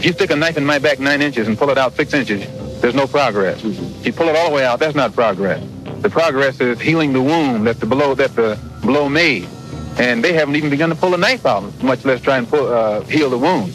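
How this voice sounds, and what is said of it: Fast, heated speech. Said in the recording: “That's why I'm talking so fast and so hot.”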